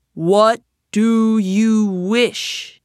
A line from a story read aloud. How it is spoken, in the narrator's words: the genie of the lamp thundered